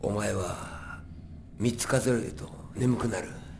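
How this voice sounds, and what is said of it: Speaks in a character's voice. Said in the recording (Japanese): “それぞれのキャラクターの声で”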